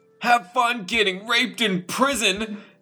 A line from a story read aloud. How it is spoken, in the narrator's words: He yelled